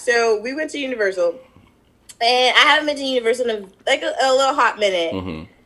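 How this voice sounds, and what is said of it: Hoarse, partly lost voice. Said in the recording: “my voice is still not back”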